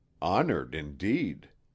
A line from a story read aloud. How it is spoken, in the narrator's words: murmured Kent